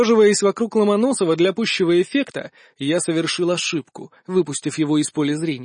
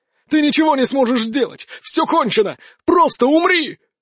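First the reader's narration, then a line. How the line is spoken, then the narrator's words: Shouted. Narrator (Russian): крикнул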